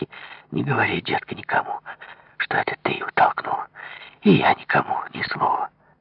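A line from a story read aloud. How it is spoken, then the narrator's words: Conspiratorial whisper. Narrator (Russian): Марина шептала заговорщицки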